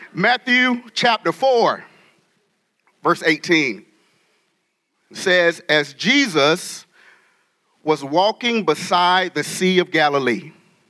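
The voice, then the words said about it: North Carolina Southern accent. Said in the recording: “I am from North Carolina ... So that accent will come out if you have not heard it. We say y'all and all that stuff. We talk real fast.”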